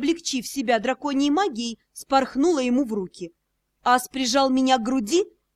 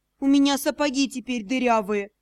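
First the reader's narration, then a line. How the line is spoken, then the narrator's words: Sorrowful sigh. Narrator (Russian): горестно вздохнула я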